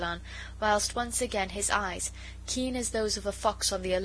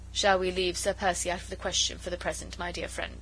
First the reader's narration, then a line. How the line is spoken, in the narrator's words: she said dryly